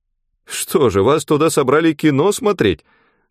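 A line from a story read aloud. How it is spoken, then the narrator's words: Cheerful question. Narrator (Russian): спросила Нюра весело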